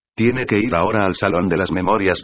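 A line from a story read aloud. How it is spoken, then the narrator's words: Plain. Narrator (Spanish): dijo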